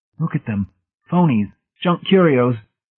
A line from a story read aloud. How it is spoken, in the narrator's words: McSafe said in a shattered voice